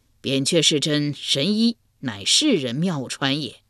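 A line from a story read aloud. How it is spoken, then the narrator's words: Laughing. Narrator (Chinese): 秦越人笑道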